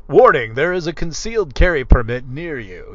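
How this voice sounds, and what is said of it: Imitates an automated app alert voice. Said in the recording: “that's what it'll sound like. And then I started doing this voice”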